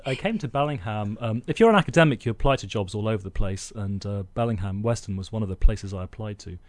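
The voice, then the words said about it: Posh English accent. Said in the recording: “you're our first accented guest ... I got this posh accent”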